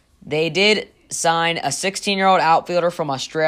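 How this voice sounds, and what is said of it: Usual voice. Nothing is said of it.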